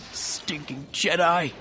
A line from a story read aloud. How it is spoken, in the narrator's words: Terrell sobbed